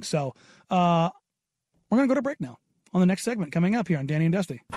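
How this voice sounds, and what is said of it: Strained, worn-out voice. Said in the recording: “my voice is on its last string”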